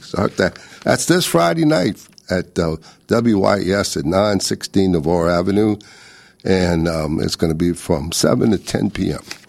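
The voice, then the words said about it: Hoarse, failing voice. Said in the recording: “I'm losing my voice. ... I can't talk no more.”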